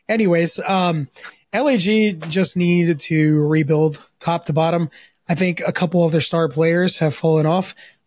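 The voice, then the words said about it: Hoarse, recovering voice. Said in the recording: “I lost my voice, so it's coming back”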